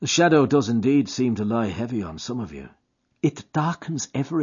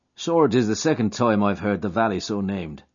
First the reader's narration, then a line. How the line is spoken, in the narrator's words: said he